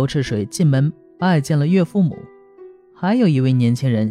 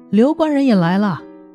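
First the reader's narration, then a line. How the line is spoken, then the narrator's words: Clamoring. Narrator (Chinese): 嚷着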